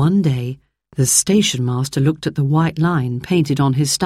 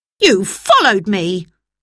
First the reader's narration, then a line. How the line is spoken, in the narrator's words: he cried crossly